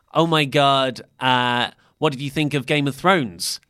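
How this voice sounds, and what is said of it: Imitates another person's accent. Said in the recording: “I can't do her accent.”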